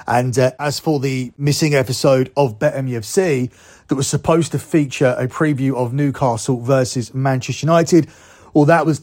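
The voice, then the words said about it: Hoarse, not fully recovered voice. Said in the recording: “as you can tell from my voice that I've just got back, it was in no shape to do a show. This is my voice at a recovered stage, still not 100%”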